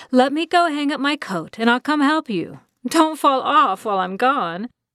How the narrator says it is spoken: Florence called out

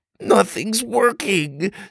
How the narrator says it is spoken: Sawyer cried, spitting out grass

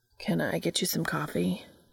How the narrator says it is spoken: he asked faintly

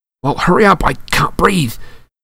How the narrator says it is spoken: Harry gasped, wrestling with it as it curled around his chest

